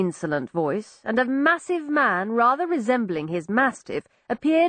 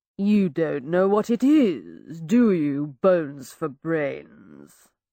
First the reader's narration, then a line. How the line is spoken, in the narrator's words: the man sneer in his voice